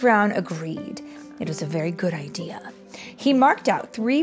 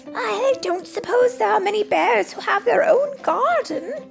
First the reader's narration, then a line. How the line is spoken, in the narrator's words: exclaimed